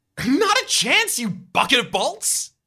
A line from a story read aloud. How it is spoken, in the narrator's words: You shout defiantly